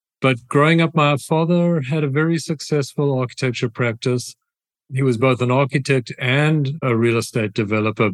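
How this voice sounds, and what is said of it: South African accent. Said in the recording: “My accent is South African”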